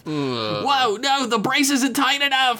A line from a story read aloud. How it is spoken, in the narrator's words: Myrtle yelled